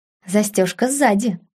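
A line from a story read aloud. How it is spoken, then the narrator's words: Cold, smiling. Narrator (Russian): холодно улыбнулась девушка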